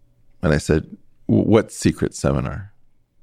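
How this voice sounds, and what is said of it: Usual voice. Nothing is said of it.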